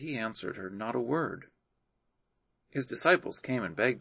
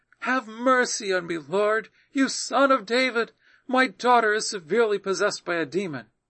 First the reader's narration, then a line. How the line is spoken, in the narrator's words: a Canaanite woman came out from these borders and cried, saying